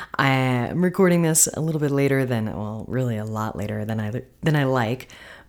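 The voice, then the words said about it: Slightly worn, tired voice. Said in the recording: “my voice is a little bit worked after the weekend”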